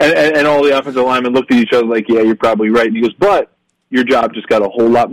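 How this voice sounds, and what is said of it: Usual voice. Nothing is said of it.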